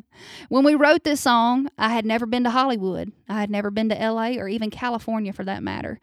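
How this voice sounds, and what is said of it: Northeast Louisiana accent. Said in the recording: “When I first moved to Nashville from Northeast Louisiana ... I guess they thought I had an accent ... there is no way you were from Los Angeles talking like that”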